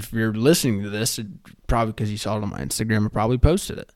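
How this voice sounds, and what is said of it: Coarse, hoarse voice. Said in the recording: “My voice is very coarse right now. I did a lot of screaming tonight.”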